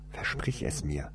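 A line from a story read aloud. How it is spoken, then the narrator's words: Hasty whisper. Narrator (German): flüsterte er hastig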